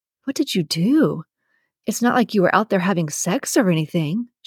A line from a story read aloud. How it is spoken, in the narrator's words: she whispers